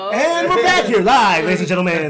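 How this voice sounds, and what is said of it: Radio announcer voice. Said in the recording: “doing your radio voice ... Is it like traditional, like 60s, 70s, like, well, hello, good morning ... You do have a radio”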